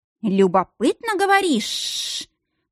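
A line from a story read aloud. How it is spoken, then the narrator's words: Hissing. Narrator (Russian): зашипел Нирайн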